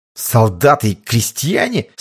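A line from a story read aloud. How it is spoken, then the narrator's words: Contemptuous indignant remark. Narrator (Russian): с презрением возмущенно заметил Острожский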